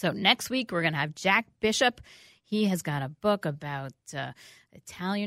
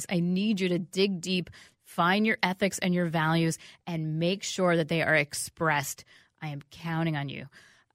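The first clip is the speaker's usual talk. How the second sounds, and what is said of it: Stern motherly mom voice. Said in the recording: “you like my mom voice. Well, this is my mom voice.”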